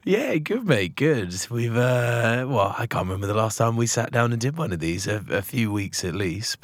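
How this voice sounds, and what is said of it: Hoarse, gruff raspy voice. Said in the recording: “you sound like you smoked about two thousand cigarettes ... a gruff, sexy voice”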